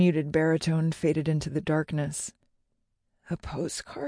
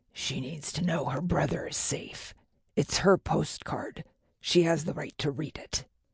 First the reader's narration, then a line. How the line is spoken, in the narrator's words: Dad's low growl